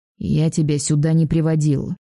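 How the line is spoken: Grumbled. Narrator (Russian): проворчала она

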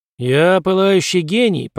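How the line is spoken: Grumbling mutter. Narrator (Russian): пробурчал Пембертон

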